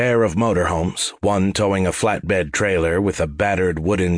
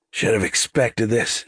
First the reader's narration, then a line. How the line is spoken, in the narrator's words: she muttered